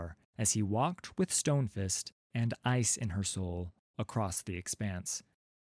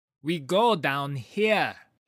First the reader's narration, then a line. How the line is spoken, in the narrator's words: said, shouting to be heard over the gale